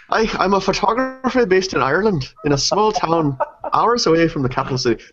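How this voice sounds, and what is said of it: Put-on Irish accent. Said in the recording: “should I read this in an Irish accent ... I can't keep up my Irish accent that long”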